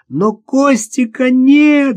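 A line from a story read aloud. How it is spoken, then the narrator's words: Tearful shout. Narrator (Russian): закричала со слезами в голосе Наташа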